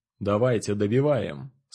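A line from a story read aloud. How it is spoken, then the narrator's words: Calm. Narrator (Russian): сказал спокойно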